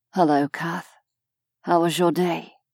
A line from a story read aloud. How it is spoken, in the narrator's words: Vesh's smile was only for her as he murmured